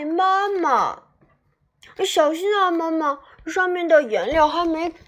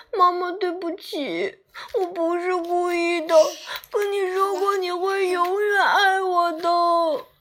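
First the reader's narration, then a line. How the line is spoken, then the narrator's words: Crying. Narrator (Chinese): 阿丽哭着说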